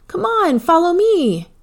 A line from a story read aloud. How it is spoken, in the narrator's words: he yelled as he ran down the hallway